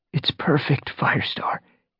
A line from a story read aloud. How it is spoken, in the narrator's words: he murmured